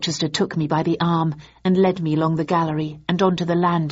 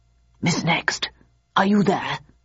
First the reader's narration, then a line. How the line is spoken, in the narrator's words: hissed